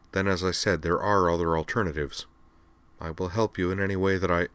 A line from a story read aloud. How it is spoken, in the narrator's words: said calmly